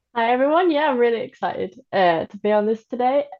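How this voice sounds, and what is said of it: English accent. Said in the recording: “from England. Which I guess explains the accent.”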